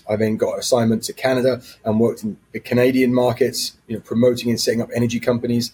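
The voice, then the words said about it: British accent. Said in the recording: “you can probably tell from my accent, but I'm not a native New Yorker. I actually come from the UK”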